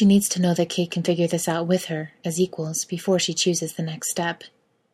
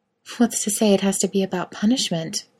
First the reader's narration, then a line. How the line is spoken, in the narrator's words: Miranda murmurs